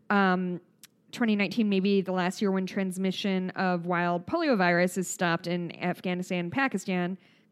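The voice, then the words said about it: Strong Midwestern accent. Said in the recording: “my Midwest accent comes through really hard when I say Afghanistan”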